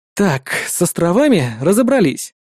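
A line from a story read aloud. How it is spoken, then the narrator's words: Relieved sigh. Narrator (Russian): облегченно вздохнул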